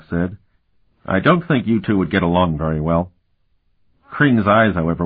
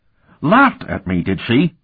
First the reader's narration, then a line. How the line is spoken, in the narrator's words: He said indignantly